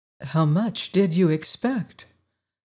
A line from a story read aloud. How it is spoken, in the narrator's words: asked gently